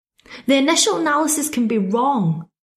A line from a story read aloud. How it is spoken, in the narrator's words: I snapped